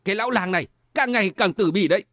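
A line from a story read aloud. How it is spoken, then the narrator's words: Suppressed anger. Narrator (Vietnamese): Khố Tỳ giận dữ nhưng mà cố nén nói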